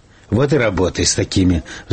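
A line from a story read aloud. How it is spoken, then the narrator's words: Sighing. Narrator (Russian): вздохнул Букашев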